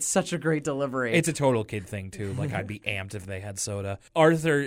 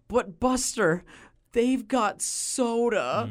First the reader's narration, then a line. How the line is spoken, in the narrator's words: He even exclaims